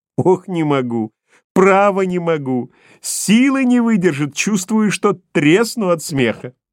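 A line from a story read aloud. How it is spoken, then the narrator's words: Guffawing. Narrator (Russian): Продолжает хохотать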